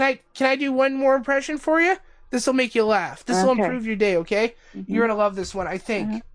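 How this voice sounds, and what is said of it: Usual voice. Nothing is said of it.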